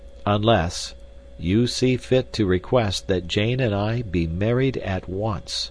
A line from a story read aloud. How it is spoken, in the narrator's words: said Candler, slowly and distinctly